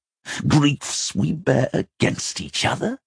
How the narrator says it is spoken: Elias snarled, and there was something broken and agonized in his voice

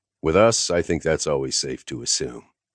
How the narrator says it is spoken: I said dryly

